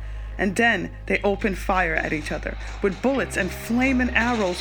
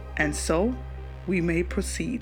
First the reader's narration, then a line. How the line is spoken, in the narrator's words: said the attendant